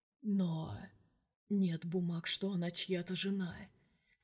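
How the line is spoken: Quiet. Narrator (Russian): тихо сказал Влад

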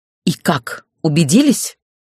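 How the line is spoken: Furious, through gritted teeth. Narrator (Russian): Вне себя от ярости процедила я

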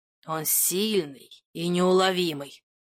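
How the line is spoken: Growled. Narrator (Russian): прорычал Тамерлан

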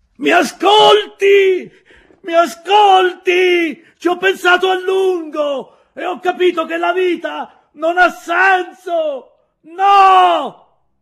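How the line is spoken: Shouting. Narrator (Italian): Gridava

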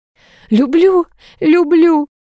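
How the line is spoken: Squeak. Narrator (Russian): пискнул Артур, закрывая локтем лицо

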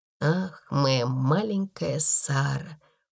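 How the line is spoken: Muttering. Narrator (Russian): пробормотал он

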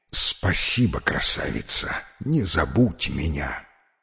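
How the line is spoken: Hurried whisper. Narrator (Russian): шепнуть царевне

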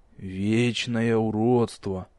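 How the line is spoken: Quiet sigh, young woman. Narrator (Russian): тихо вздохнула девушка

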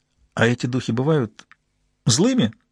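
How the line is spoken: Laughing. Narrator (Russian): рассмеялась Джун

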